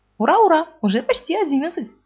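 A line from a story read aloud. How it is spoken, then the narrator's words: Said joyfully. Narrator (Russian): сказал Пух радостно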